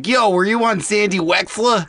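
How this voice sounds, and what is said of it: Imitates another person's voice. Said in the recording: “That's a good impression. ... Did he text with that accent?”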